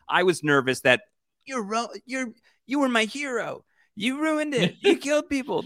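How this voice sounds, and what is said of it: Imitates another person's voice. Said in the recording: “that impression of Hailee Steinfeld”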